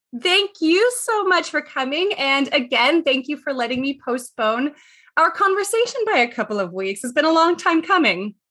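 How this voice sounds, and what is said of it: Strained, laryngitis-affected voice. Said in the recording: “I just have this weird voice thing. And I don't know what it is, but I've been sensitive to laryngitis”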